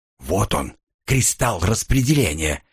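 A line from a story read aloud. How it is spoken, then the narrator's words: Whispered in ear. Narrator (Russian): шепнул мне на ухо Оливер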